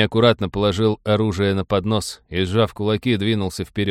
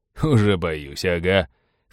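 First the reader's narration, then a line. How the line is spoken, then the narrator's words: Scornful snort. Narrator (Russian): фыркнул абордажник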